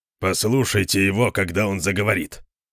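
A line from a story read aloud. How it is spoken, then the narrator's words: Grumbling. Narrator (Russian): проворчал Конан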